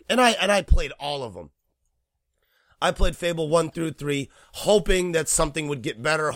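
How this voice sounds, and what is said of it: Hoarse, worn-out voice. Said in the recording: “My voice is completely shot right now. I think you can hear it”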